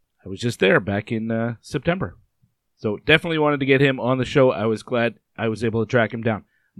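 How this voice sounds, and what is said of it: Hoarse, strained sick voice. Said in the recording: “my voice is shot ... my voice is messed up”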